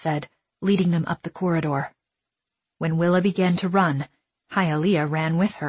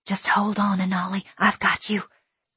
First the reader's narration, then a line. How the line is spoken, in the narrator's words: Hialeah whispered to her brother as they ran